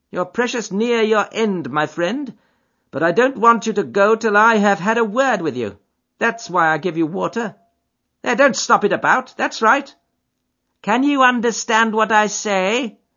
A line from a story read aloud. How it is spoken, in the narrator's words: Holmes groaned